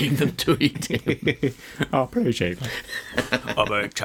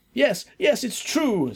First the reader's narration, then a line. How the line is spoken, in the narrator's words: screamed Marcus